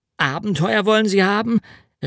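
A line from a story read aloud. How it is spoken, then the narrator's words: Called out. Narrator (German): rief ich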